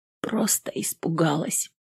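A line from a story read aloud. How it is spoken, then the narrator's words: Quiet. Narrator (Russian): тихо сказала она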